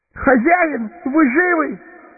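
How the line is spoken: Shout. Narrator (Russian): крикнул Сэмми

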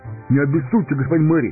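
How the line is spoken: Timid babbling. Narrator (Russian): пролепетал хоб-амбарник

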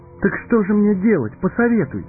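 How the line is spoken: Pleading. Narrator (Russian): взмолился Фродо

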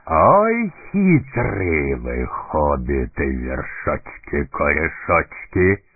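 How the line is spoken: Good-natured booming. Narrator (Russian): добродушно прогудел он

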